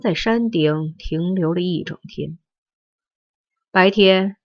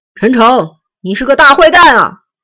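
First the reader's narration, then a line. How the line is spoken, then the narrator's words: Wild, shrill shouting. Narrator (Chinese): 陈诚狂欢般的厉声呼啸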